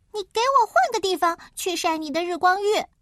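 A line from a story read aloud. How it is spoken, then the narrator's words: Angry shout. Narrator (Chinese): 他冲着河马喊道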